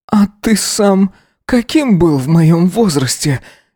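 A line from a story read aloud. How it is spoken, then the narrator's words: Sobbing with delight. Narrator (Russian): Не удержался Эзра, всхлипнув от восторга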